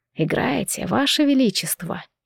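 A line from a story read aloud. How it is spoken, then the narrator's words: Whisper. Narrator (Russian): прошептал Максимилиан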